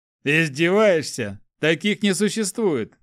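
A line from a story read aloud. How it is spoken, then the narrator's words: Laughing warrior. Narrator (Russian): рассмеялся воин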